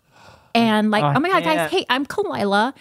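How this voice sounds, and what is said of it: Put-on Valley Girl accent. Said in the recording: “accentuate my Valley Girl accent ... this fake accent from television”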